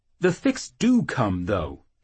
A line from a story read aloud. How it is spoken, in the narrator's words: he snarled, angry at his need for justification